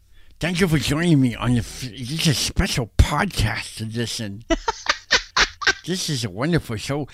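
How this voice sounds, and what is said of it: Nerdy basement-kid character voice. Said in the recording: “that voice you do when you sound like the kid that's in the basement with all the like technology”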